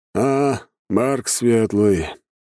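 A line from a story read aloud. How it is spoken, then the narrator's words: Indifferent mumble. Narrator (Russian): безразлично промямлил вояка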